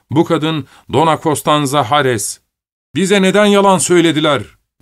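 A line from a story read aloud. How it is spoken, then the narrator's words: Shoemaker shouting. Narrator (Turkish): diye bağırdı ayakkabı tamircisi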